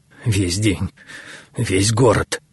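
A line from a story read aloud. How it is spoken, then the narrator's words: Hoarse, terrified high priest. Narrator (Russian): хрипло выдавил первосвященник, в ужасе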